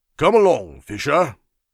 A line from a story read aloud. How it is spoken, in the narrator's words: called out Sir Walter from below